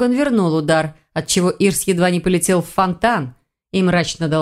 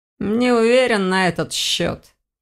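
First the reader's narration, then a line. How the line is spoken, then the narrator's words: Grumbling. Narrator (Russian): проворчал Элгар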